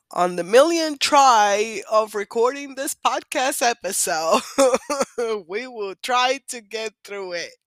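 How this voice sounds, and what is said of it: Sick-sounding voice. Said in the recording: “I have been sick, and you might hear it in my voice.”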